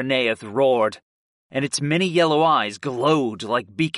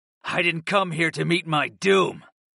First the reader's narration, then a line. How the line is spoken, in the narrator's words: I growled